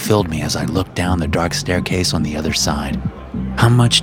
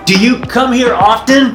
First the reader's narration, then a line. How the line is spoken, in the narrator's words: I shouted lamely over the pounding music